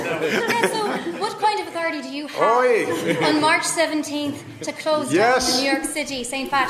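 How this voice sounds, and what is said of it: Irish accent. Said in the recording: “she has a beautiful Irish accent”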